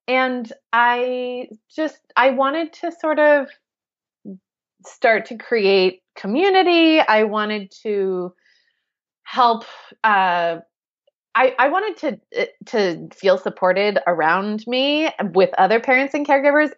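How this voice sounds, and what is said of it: American accent. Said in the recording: “we are obviously American, as you can tell from my accent.”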